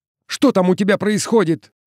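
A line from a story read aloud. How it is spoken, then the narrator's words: Shout. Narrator (Russian): крикнул он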